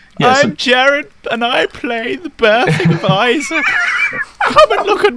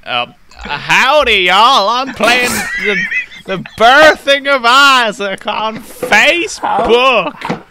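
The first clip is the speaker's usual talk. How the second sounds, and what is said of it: Put-on American cowboy accent. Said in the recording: “I'll do it in an American accent ... How did I know that was the accent you were gonna go with? ... I'm gonna put on my boots real quick and my hat.”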